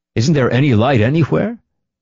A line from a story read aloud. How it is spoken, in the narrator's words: Nikolai inquired cheerfully